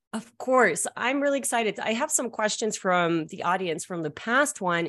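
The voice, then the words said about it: Canadian accent with Russian tinge. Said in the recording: “It's such a Canadian accent ... It's like Canadian / Russian mixed in there. And then some people think it's French.”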